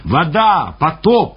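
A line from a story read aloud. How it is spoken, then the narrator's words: Shouting. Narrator (Russian): Встречные кричали нам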